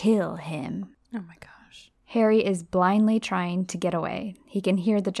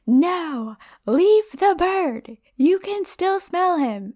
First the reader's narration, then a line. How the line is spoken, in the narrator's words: a lot more yelling, because Riddle is pissed